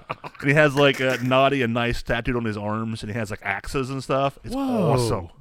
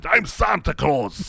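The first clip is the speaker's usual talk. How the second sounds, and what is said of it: Put-on Russian accent. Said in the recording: “He has like this Russian accent.”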